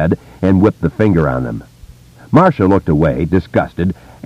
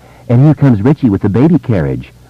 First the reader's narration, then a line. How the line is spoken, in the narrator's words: Marcia finished, cawing laughter